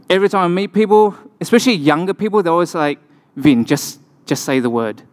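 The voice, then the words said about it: Noticeable non-local accent. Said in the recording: “my kind of accent sounds kind of interesting to you”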